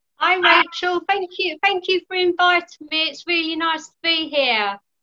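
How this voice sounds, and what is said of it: British accent. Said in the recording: “accent is adorable ... we have different accents. I'm in the United States, ... in the UK, and she has, I love her accent. ... It's absolutely adorable”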